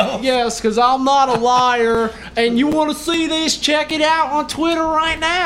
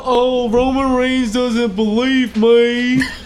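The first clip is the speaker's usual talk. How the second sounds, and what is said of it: Imitates another person's voice. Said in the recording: “Is that your impression of AJ Styles?”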